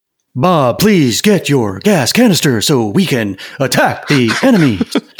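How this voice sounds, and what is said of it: William Shatner impression. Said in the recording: “It was a good Shatner impression.”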